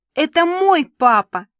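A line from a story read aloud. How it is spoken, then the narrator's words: Shouting. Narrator (Russian): кричала она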